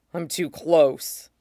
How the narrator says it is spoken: he rumbles ... heart beating like a trapped bird

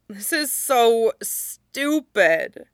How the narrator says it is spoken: Jiang Cheng moaned, her hands over her face to hide her tears

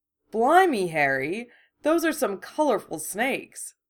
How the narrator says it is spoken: George exclaimed

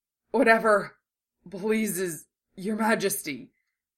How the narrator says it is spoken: He took a couple gulping breaths and said, in jerky gasps

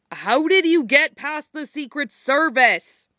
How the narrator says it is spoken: He yelled

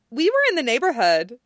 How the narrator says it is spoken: she says brightly

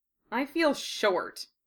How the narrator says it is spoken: Harry muttered

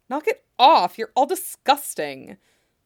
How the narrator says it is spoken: Sanji hisses

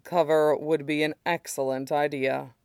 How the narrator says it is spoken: he says dryly

